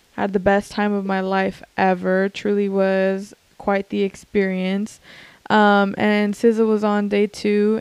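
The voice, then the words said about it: Hoarse, cracking voice. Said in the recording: “I sound like a smoker ... that's why I sound like this, because I was like screaming to the point that like my voice was like cracking”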